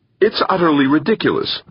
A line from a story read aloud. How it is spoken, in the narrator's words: cried Bishop Danvers